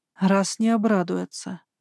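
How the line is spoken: Sighing. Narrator (Russian): вздохнула я

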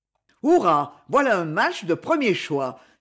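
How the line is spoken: Players shouting together. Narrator (French): s'écrièrent les autres joueurs

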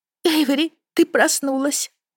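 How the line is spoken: Sleepy, stretching. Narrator (Russian): сонно проговорила Аида, потягиваясь

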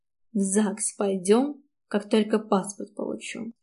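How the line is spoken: Quiet whisper. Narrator (Russian): шепчу тихо

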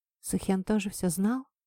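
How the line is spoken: Barely audible. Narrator (Russian): еле слышно произнесла я

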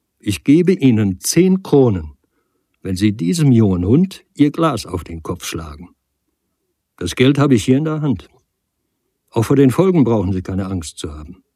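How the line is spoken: Loud and slow. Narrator (German): sagte Nagel noch einmal laut und langsam

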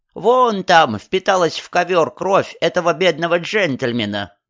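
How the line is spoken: Nasty creaky voice. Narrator (Russian): добавила госпожа Кебби отвратительным скрипучим голосом

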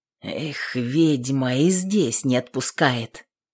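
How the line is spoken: Muttered. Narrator (Russian): Пробормотал

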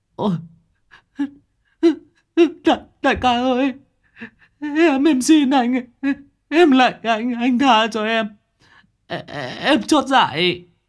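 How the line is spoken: Whimpering tearful plea. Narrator (Vietnamese): thằng Hùng mếu máo

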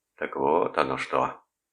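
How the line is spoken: Muttered. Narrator (Russian): пробормотал он

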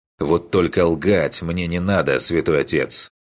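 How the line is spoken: Irritated command. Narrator (Russian): Велел он почти раздраженно

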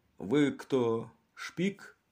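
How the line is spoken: Prompt question. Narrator (Russian): она тут же спросила

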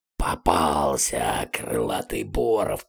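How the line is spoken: Wheezing. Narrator (Russian): просипел двуглавый Юл

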